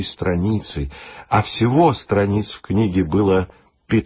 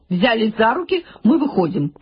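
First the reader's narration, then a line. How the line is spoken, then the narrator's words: Sharp command. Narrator (Russian): прикрикнула на них Гертруда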